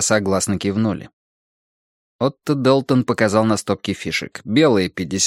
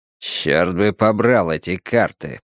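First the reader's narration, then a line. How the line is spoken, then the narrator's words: Grumbling. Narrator (Russian): проворчал Призи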